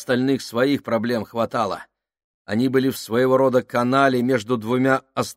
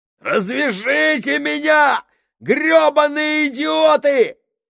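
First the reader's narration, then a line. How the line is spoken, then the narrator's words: Shouting. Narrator (Russian): кричал Сакс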